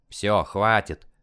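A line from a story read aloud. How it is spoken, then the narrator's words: Grumbling. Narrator (Russian): проворчал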